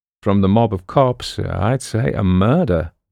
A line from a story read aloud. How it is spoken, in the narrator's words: Boston replied dryly